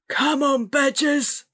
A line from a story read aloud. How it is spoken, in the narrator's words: Gritsky yelled